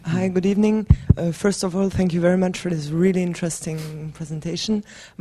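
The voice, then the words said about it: Voice congested from a cold. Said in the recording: “sorry, I have a cold”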